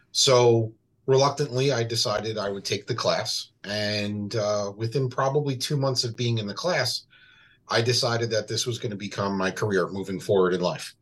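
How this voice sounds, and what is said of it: New York accent. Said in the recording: “originally from New York. You could probably tell by the accent.”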